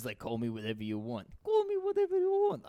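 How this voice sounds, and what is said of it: Impression of another person. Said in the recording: “that's a good impression. ... doing Mr. X.”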